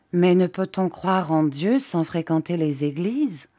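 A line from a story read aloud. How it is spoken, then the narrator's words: Plain. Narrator (French): La marquise répondit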